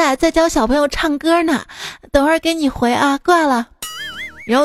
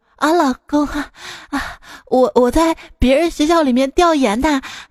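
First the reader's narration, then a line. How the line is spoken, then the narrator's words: Breathless. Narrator (Chinese): 他气喘吁吁说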